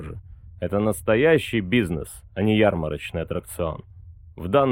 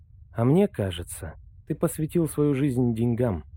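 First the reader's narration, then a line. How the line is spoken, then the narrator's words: Quiet. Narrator (Russian): тихо сказала Ирвина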